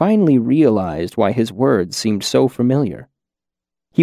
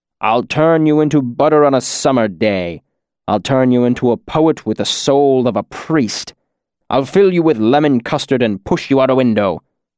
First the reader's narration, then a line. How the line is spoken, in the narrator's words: spat